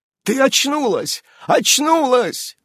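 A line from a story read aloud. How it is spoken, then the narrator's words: Shouting. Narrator (Russian): кричал он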